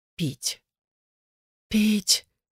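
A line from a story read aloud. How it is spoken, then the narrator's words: Quiet hoarse rasp. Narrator (Russian): тихонько прохрипела Илаза, и Игар не узнал ее голоса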